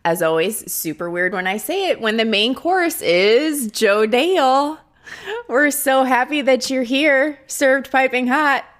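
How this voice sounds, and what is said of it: Midwestern American accent. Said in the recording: “I have the Midwestern accent ... here I am with the Midwestern accent”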